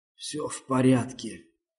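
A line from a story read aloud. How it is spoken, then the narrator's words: Hoarse rasp. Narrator (Russian): прохрипел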